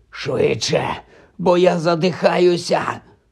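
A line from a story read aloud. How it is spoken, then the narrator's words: Wheezing, chest constricted. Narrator (Ukrainian): прохрипів Гаррі, відбиваючись від пагона, який закручився навколо його грудей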